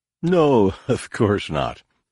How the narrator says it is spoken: he said, laughing lightly

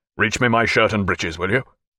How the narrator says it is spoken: he said in that strong, decided voice of his

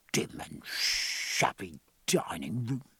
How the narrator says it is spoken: said the gunroom steward to Killick in a sea-going whisper

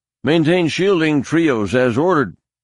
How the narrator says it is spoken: one pilot barked

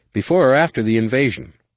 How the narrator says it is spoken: Jason's soft answering chuckle was dry as summer on Tatooine

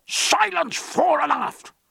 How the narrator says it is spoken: roared Jack

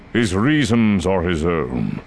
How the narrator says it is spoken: Dooku said smoothly

